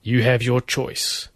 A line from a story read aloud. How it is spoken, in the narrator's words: Duncan told it coldly